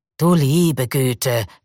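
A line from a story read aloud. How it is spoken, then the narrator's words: Growl. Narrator (German): knurrte Hinze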